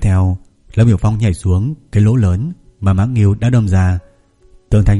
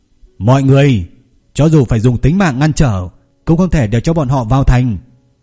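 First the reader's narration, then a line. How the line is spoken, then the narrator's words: Loud shout. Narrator (Vietnamese): Lâm Biểu Phong hét lớn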